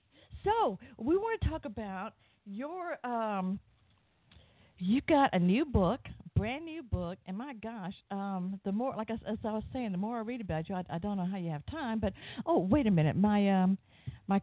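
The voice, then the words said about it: Southern US accent. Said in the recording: “in case you can't tell from my accent, I am from the southern part of the U.S. ... It's a great accent”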